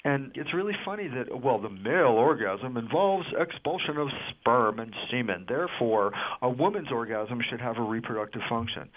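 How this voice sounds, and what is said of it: Put-on exaggerated doctor voice. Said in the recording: “does a doctor voice ... You're already a doctor, yet you put on a more doctor voice.”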